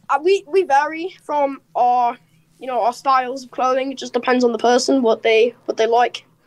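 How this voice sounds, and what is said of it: Australian-British sounding accent. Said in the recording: “Just your accent is... Wobbly. ... it's an Australian-British kind of accent”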